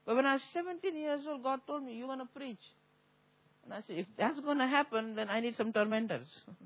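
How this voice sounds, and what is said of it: Heavy foreign accent. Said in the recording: “I got a heavy accent.”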